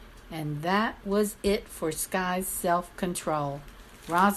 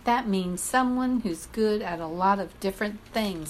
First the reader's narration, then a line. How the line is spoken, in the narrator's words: Skye exclaimed